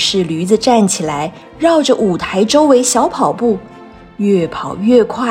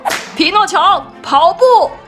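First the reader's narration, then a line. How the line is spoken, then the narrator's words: Shouting. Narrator (Chinese): 团长叫道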